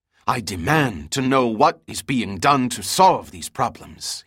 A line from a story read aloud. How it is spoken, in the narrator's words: he hissed